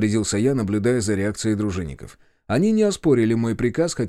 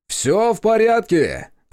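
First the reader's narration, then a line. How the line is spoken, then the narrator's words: Loud announcement. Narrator (Russian): объявил достаточно громко, чтобы все слышали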